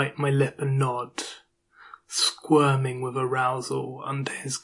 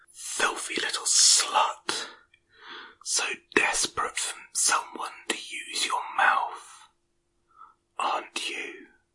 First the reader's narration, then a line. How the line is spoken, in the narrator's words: He whispers in my ear